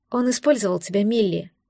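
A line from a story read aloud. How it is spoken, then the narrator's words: Sigh. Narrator (Russian): вздохнула я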